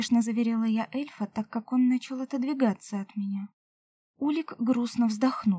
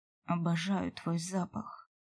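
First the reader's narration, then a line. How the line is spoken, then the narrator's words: Quiet, into hair. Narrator (Russian): тихо сказал мне куда-то в макушку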